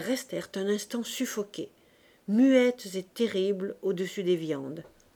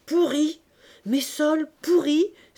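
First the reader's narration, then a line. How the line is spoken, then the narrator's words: Angry cry, fishwife. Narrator (French): s'écria la poissonnière, la face empourprée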